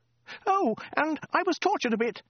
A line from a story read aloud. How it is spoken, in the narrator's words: shrieked the woman